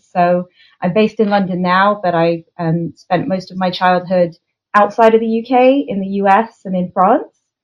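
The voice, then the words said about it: Non-English accent. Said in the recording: “You can probably tell from my accent, I'm not English.”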